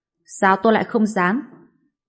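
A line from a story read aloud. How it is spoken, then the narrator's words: Cold speech. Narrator (Vietnamese): Bạch Diệp Phi lạnh lùng nói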